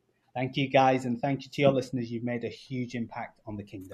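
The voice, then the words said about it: English accent. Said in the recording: “another English accent”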